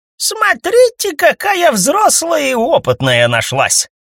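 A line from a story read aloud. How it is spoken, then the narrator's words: Laughing old woman. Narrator (Russian): засмеялась бабка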